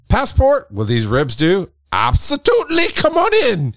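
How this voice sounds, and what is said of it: Attempted Canadian accent sounding Irish. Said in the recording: “I went Lucky Charms on that. I don't know what I did, but that's my Canadian accent is Lucky Charms.”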